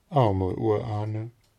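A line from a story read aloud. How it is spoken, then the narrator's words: Sighing. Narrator (German): Trude seufzte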